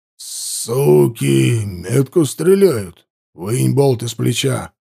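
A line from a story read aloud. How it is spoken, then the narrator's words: Growled. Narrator (Russian): прорычал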